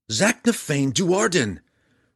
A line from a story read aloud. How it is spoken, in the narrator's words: Drizzt yelled back